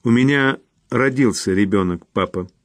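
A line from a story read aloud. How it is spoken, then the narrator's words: Cold. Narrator (Russian): холодно произнесла она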